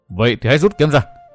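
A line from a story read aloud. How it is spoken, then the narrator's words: Furious roar, trembling with rage. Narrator (Vietnamese): Văn Thiên Hào bị gã chọc tức đến đỗi giận run gầm hét một tiếng rồi nói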